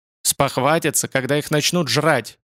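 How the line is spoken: Angry. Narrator (Russian): зло сказал Святожор

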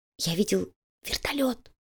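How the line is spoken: Whisper. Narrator (Russian): прошептал Слизняк

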